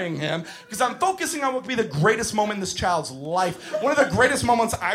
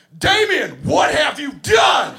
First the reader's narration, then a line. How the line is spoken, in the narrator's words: at the top of my lungs, I yell